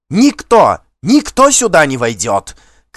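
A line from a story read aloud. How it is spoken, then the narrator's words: Shouting. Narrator (Russian): кричала она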